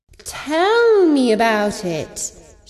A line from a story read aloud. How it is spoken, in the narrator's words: she purred